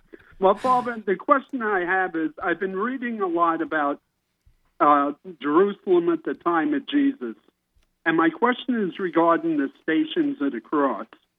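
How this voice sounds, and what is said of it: Louisiana accent. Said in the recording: “I can hear that Louisiana accent in that voice of yours”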